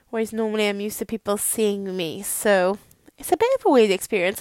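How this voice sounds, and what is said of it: Welsh accent. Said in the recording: “if you struggle to understand my accent, I'm really sorry. If I get angry, sometimes I get really Welsh”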